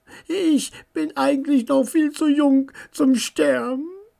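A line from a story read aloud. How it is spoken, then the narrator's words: Quiet whining to oneself. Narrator (German): jammerte Charlie leise vor sich hin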